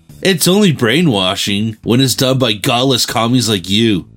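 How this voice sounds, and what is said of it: Corporate-sounding character voice. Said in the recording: “in a corporate voice”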